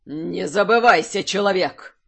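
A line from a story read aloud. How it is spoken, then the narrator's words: Near growl. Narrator (Russian): Едва ли не прорычал старейшина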